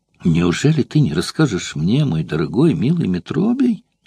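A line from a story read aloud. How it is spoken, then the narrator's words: Pleading. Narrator (Russian): упрашивала Эвтибида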